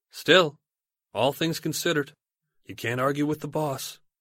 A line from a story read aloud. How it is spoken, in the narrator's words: Chikatilo sighs and reasons aloud